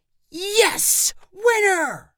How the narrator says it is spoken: he shouted louder than Lana's cheer

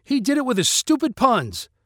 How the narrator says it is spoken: Sharma shouted

